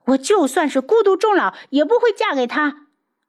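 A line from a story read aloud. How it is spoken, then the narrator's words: Angry roar. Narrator (Chinese): 苏如意怒吼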